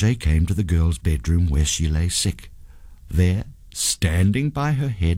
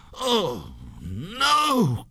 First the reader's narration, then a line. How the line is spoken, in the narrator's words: cried the ghost